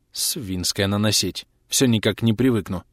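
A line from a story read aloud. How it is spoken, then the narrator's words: Mutter. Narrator (Russian): пробормотала она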